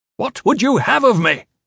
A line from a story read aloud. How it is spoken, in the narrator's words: Gavin shouted